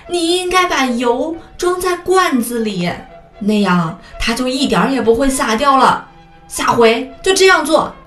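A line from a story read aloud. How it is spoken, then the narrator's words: Furious mother bear shouting. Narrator (Chinese): 熊妈妈气坏了，大声喊起来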